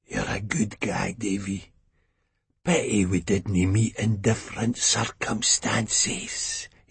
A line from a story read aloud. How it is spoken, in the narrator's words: he wheezed